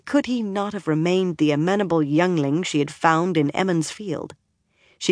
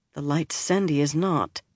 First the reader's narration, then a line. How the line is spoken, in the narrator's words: Moiraine muttered